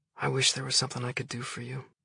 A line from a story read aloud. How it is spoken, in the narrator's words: said, his voice soft